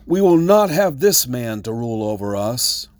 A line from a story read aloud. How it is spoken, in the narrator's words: the citizens shake their fist at the king and shout